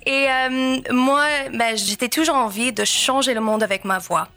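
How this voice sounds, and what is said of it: Slight American accent in French. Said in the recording (French): “je suis américaine, donc c'est pour ça il y a un petit accent qui ressort des fois”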